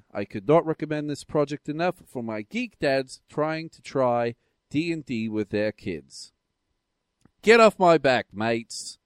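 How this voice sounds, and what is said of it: Convincing put-on Australian accent. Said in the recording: “you do a really good Australian accent”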